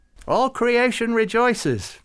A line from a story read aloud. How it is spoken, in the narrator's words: Farouk said happily